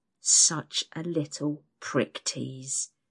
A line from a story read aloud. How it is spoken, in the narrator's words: he hisses into my ear